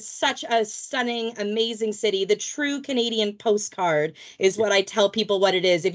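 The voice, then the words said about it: Canadian accent. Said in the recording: “I am from Vancouver, Canada, originally, as you can hear by my accent. I am not a native Brit”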